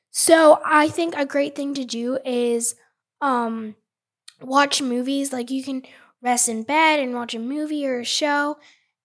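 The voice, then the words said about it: Sick-sounding voice. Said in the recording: “I am a little sick, as you can tell by my voice.”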